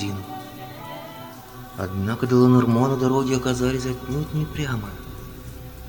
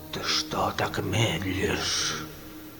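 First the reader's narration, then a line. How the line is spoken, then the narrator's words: Stale, sour-voiced question. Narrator (Russian): протухшим голосом спросил Кромвель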